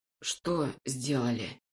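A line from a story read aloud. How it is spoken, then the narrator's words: Hoarse wheeze. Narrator (Russian): прохрипел я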